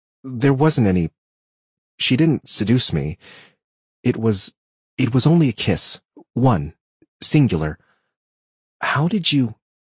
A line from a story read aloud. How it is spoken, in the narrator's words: felt my face flush as I stammered